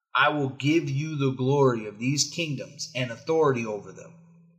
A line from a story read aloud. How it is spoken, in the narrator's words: the devil said